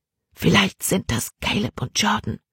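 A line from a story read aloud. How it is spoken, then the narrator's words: Whispered. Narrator (German): flüsterte Libby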